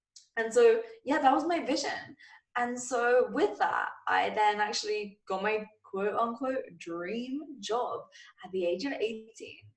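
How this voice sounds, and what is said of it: English accent. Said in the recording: “tell from my voice, I'm from England”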